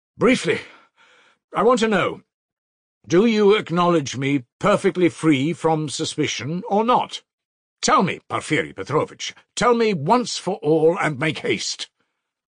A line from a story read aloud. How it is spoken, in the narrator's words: he said loudly and imperiously